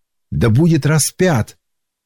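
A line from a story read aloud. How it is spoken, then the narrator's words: Crowd shouting louder. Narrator (Russian): Но они еще сильнее кричали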